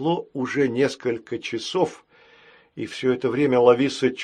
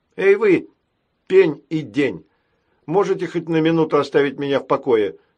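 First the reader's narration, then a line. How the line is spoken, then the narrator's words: Exasperated shout. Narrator (Russian): крикнула, наконец, Лависа, выходя из себя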